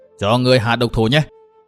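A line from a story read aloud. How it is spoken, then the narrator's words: Roaring. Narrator (Vietnamese): Lãnh Công Tiêu gầm lên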